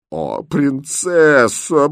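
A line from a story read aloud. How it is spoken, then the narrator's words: Distressed moaning woman. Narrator (Russian): простонала бедная гофмейстерина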